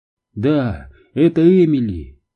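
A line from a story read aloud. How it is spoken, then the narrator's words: Strained, forced out. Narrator (Russian): смогла выдавить она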